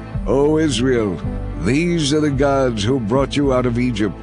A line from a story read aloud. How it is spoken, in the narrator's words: The people exclaimed